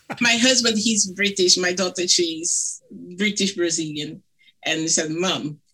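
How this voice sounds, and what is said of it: Thick Brazilian accent, elongated vowels. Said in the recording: “my thick accent ... I elongate my vowels ... vowels for Latin people ... they are eternal ... the elongation of the vowel”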